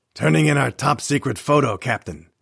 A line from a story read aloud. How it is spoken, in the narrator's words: Mike snapped off the statement like a soldier